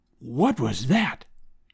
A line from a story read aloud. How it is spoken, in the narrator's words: whispered